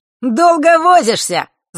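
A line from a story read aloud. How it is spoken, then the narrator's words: Gloating shout. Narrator (Russian): злорадно прокричал он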